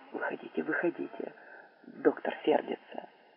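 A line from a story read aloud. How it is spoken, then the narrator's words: Whisper. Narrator (Russian): А фельдшер, приехавший с ним, зашептал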